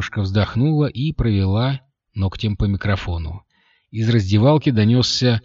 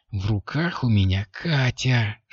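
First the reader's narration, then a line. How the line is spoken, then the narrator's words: Whispered grumble. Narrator (Russian): шепотом проворчал тот в ответ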